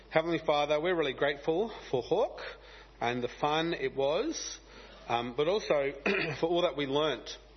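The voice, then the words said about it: Gravelly, hoarse voice. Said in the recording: “You can hear my voice is a bit gravelly because of all the fun and excitement I was having singing songs and trying to talk to kids in a crowded, noisy room”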